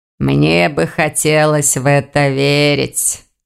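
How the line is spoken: Grumbling. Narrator (Russian): проворчал проректор

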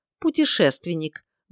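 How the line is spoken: Gloomy, spitting. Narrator (Russian): мрачно сплюнул граф Ли Алеристиэль

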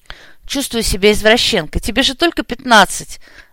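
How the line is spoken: Sigh after laughing. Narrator (Russian): отсмеявшись, вздохнула Оля

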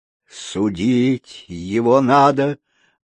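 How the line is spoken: Gloomy mutter. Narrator (Russian): мрачно пробормотал клоун

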